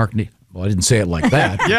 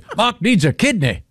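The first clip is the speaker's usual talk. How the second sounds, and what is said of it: Clumsy put-on unidentified accent. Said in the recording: “I'm not sure what accent that is. ... I think it's offensive. ... I'm not good at accents.”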